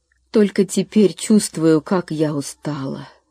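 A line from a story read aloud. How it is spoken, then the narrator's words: Mother's relieved sigh. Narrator (Russian): с облегчением вздохнула мама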